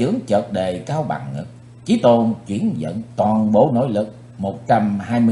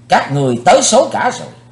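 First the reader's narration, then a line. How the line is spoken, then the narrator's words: Loud shout. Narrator (Vietnamese): Chí Tôn quát lớn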